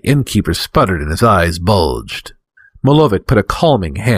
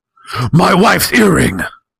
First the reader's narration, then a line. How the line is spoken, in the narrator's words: Zoc shouted again